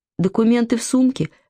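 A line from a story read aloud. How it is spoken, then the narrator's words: Confused, bewildered. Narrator (Russian): растерянно сказала Алена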